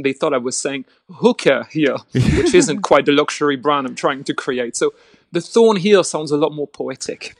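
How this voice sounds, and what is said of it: Strong accent. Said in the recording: “my ridiculous accent”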